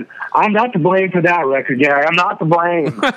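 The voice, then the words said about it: Imitated North Carolina accent. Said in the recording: “in his North Carolina accent”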